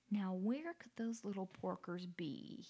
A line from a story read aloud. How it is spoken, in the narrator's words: he muttered